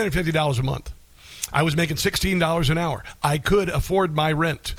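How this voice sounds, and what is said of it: Usual voice. Nothing is said of it.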